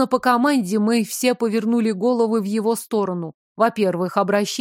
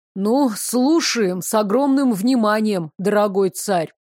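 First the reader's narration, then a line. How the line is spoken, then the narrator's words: Grumbling mutter. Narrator (Russian): пробурчал Девислав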